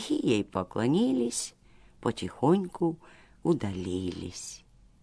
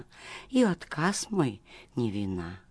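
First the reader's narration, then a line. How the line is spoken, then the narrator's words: Quiet speech. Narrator (Russian): тихо молвила она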